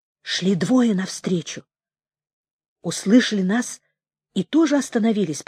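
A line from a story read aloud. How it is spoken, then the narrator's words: Whisper. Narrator (Russian): прошептал он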